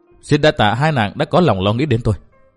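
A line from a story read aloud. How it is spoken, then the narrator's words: Stern voice. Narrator (Vietnamese): chàng nghiêm giọng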